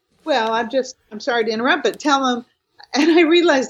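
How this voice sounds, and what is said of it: Loud, yelling voice. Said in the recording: “I'm yelling. You know, I'm yelling ... scream all the way to Utah ... you got to speak up”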